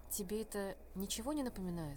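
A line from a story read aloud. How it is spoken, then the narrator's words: Quiet question. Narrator (Russian): тихо спросила Триллиан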